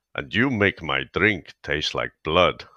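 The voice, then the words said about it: Put-on Russian accent. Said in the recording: “a German, playing his best Russian accent, I figured I'd give that a go, completely unprepared”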